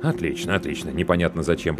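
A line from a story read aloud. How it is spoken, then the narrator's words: Man muttering. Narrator (Russian): пробормотал мужчина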